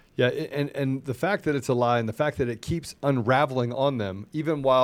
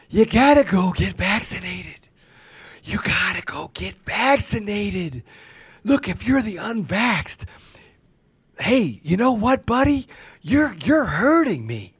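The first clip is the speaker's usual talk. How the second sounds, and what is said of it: Impression of Joe Biden. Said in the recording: “basement dwelling Biden gets up and says, it's the unvaccinated ... Let me try to do an impression.”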